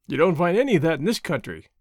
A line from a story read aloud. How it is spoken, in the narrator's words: Walt laughed